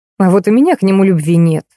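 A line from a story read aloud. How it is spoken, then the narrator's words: Dismissive snort. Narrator (Russian): хмыкнула Альбина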